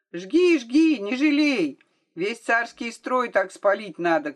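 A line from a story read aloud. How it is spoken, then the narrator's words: Crowd shouting. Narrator (Russian): кричали из толпы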